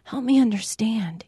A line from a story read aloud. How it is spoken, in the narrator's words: he whispered